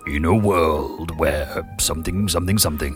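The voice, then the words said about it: Deep movie-trailer announcer voice. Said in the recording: “I should have that deep voice chap doing this ... That's the one. Oh, it's quite sexy”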